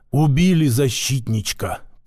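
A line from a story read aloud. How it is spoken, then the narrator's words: Whisper from behind. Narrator (Russian): прошептал за моей спиной Васька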